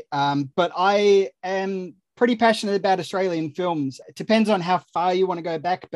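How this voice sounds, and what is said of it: Australian accent. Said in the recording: “I'm Australian. The accent tends to give that away.”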